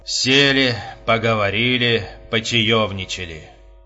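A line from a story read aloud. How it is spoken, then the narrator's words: Weak exhausted exhale. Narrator (Russian): бессильно выдохнул Епифанов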